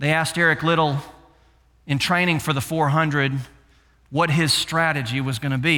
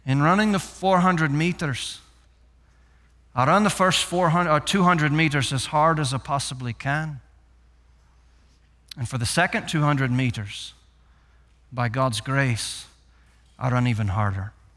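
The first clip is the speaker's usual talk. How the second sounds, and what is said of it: Deliberately bad Scottish accent. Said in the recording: “in my worst Scottish accent today”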